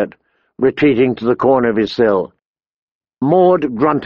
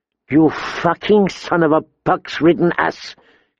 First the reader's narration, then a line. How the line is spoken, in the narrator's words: he spat